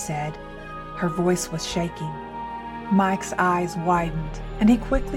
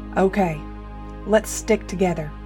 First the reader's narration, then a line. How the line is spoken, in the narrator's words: he said, his voice firm